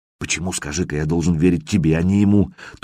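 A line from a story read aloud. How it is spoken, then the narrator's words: Whispered question. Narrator (Russian): тоже шепотом поинтересовался я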